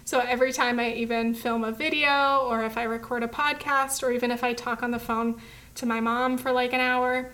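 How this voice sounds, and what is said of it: Strained, fading voice, sounds tearful. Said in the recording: “My voice is going. ... I sound like I'm crying. ... I start to lose my voice”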